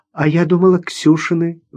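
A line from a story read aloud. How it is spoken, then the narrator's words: Sigh. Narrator (Russian): вздохнула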